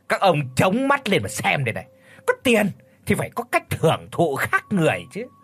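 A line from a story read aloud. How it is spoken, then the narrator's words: Scornful, boastful smirk. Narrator (Vietnamese): Vốn tính hiếu thắng lại thêm cái thói trưởng giả học làm sang, cho nên Lão Kha đã cười khẩy đáp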